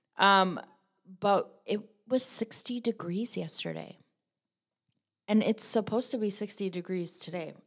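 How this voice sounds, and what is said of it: Wisconsin accent. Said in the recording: “I live in Wisconsin, if you haven't figured out from my amazing accent.”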